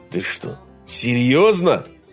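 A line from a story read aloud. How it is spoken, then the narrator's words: Indignant exclamation. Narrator (Russian): Возмущенно воскликнул он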